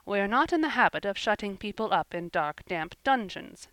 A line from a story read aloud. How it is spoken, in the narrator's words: said Marilla dryly